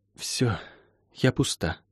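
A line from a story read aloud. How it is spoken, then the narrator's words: Exhaled words. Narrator (Russian): выдохнула она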